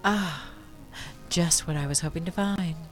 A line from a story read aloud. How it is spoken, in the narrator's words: she murmured